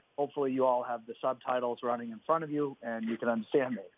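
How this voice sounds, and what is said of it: Thick Boston accent. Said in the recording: “my extremely thick Boston accent.”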